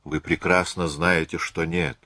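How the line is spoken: Tired young woman. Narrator (Russian): устало сказала молодая женщина

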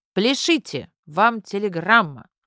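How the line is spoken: Excited shout. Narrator (Russian): Возбужденная Груня крикнула внутрь квартиры

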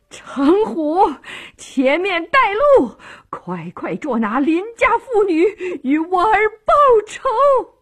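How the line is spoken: Furious hoarse scream. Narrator (Chinese): 诰命气得像只母狼，声嘶力竭地喊道

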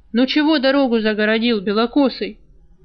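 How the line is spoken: Calm, cool inquiry. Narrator (Russian): спокойно, но без особой приязни, осведомился вожак

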